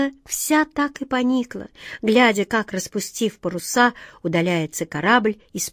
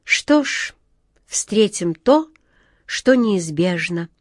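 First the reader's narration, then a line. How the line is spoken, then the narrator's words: Calm. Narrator (Russian): спокойно сказал капитан Тинтиныч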